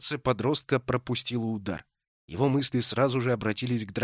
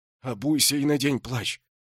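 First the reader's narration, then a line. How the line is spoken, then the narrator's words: Trembling voice. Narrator (Russian): произнес дрожащим голосом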